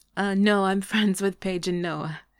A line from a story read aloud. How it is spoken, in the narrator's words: she laughed